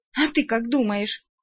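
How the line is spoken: Sudden grumpy growl. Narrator (Russian): Неожиданно сварливо рыкнула вампирка

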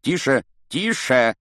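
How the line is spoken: Shouting. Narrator (Russian): кричал Снег

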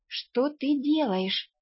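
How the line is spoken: Bewildered whisper. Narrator (Russian): растерянно шепнула я

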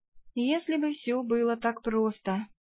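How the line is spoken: Sighed. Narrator (Russian): Я вздохнула

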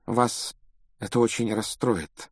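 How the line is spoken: Unusually soft tone. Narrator (Russian): произнесла профессор МакГонагал непривычно мягким тоном

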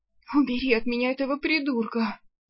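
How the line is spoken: Moaning. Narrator (Russian): простонала она

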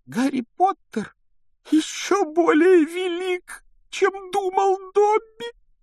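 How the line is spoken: Sobbing exclamation. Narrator (Russian): воскликнул он с рыданием

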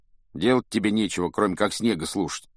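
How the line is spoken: Grumbling. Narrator (Russian): пробурчал Рон

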